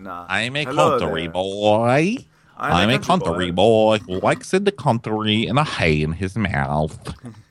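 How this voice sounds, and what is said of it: Put-on American country accent. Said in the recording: “I do American accent now. This is me being American.”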